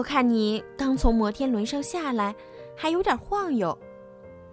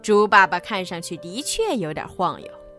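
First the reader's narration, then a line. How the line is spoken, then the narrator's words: Laughing. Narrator (Chinese): 水牛先生笑着说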